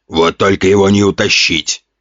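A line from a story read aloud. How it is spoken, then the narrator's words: Scoffing snort. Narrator (Russian): хмыкнул Ген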